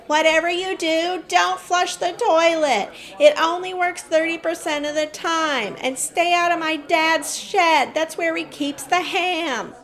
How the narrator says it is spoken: someone shouts

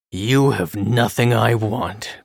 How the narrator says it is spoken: growls the wolf

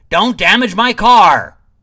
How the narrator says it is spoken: Huff was shaken back into his seat, and he shouted

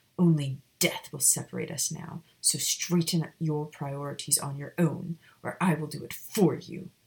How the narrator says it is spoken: he growled

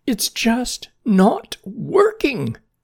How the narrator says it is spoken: cried Jerry

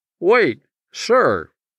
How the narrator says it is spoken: pleaded the now muffled voice

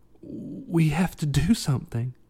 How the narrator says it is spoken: Evan croaked

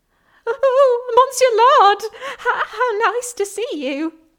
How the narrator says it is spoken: stammered the head chef

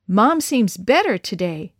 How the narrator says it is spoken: Dad exclaimed as he hurried

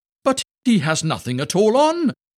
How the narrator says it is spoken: cried out all the people

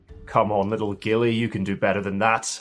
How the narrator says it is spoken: he chuckles to himself

